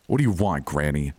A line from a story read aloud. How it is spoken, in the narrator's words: growled